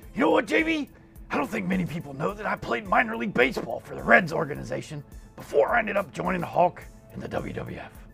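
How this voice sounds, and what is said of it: Macho Man Randy Savage impression. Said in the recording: “I'll do a voice ... You sounded like Macho Man.”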